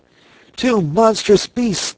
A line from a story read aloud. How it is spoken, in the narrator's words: cried he